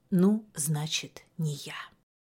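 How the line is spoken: Old woman, quiet, shaken. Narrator (Russian): Старушка сама не своя, и тихо сказала

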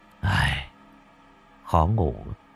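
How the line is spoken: Soft, hesitant speech. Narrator (Vietnamese): Cậu khẽ dỗ dành rồi tần ngần nói

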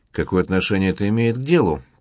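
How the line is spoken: Grumbled. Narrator (Russian): проворчал Карл

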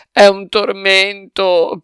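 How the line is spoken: Whimpering. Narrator (Italian): piagnucolava

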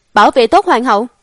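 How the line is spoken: Loud shout. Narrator (Vietnamese): Lãnh Hạ quát lớn

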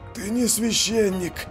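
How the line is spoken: Breathless exhale. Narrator (Russian): выдохнул он

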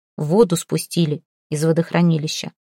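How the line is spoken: Plain. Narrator (Russian): сказал Рафа

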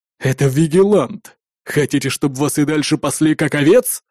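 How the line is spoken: Angry growl. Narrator (Russian): Злобно прорычал налетчик

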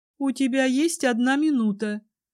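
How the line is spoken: Grim, grudging tone. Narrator (Russian): сказала она мрачно, как будто я просила ее о великом одолжении

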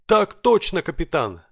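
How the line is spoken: Barked in reply. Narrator (Russian): рявкнул в ответ

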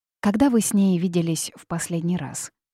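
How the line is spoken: Calm, casual friendly question. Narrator (Russian): спокойным тоном спросила доктор, будто они вели непринужденную дружескую беседу

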